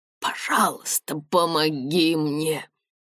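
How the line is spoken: Breathed out. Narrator (Russian): выдохнул он

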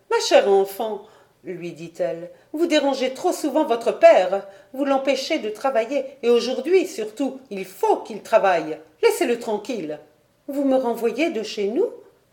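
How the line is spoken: Stunned, dismayed exclamation. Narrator (French): s'écria Diane, stupéfaite et consternée

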